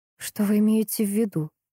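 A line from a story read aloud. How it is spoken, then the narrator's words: Trembling voice question. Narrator (Russian): Дрогнувшим голосом спросила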